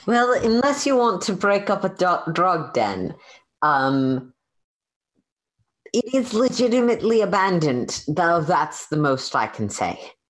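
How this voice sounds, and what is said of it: Put-on character accent. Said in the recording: “This accent is not working for me tonight.”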